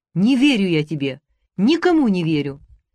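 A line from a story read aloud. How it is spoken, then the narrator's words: Shouted. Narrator (Russian): Катяша крикнула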